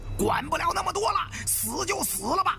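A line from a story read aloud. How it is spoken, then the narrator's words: Through gritted teeth. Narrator (Chinese): 一咬牙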